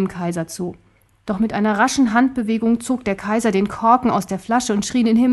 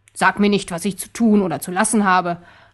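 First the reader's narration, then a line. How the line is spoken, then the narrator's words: Gruff answer. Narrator (German): antwortete der Kaiser barsch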